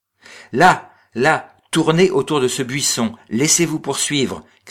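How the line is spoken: Shouting again. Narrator (French): cria-t-il de nouveau

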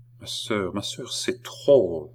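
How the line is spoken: Whispered in the ear. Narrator (French): murmura le comte d'Artois à l'oreille de Marie-Antoinette

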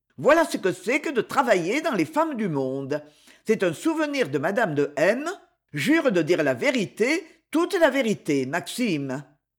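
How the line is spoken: Cheerful. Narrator (French): gaiement

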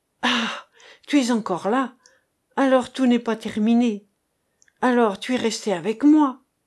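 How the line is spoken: Exclaimed. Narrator (French): s'écria-t-il

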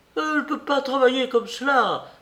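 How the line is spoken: Cried out. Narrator (French): s'écrie-t-il

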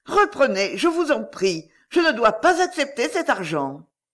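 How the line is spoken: Exclaiming. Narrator (French): s'écria-t-elle

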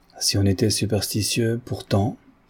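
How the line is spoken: Sneering banker. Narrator (French): dit le banquier, ricanant toujours

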